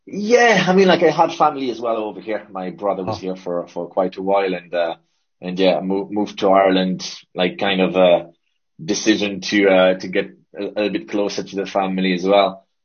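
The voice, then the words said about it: Mixed French and Irish accent. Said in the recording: “your accent is kind of a mix between Irish and ... French. It's all over the place ... it's French and Irish, yeah. And a bit of everything.”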